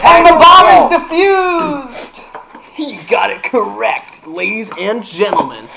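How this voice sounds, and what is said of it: Exaggerated game-show announcer voice. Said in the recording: “I want to choke that announcer voice out of you... I just tried to choke the announcer voice out of ... It didn't work.”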